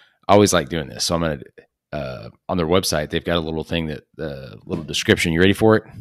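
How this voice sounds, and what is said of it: Usual voice. Nothing is said of it.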